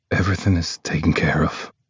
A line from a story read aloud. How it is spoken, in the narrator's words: His voice is low and quiet when he says